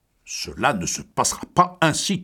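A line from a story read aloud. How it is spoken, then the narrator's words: Hot-tempered thundering. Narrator (French): tonna le bouillant McConnor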